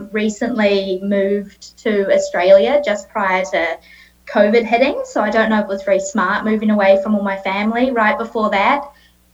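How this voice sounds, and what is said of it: New Zealand accent. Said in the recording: “You may be able to tell from my accent that I am a Kiwi and I am a New Zealander.”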